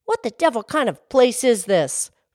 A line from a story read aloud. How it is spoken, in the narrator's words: Falsehood snapped